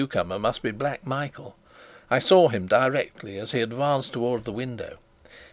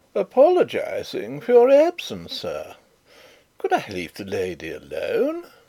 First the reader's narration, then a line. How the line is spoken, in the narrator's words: Rupert said in his loud, merry tones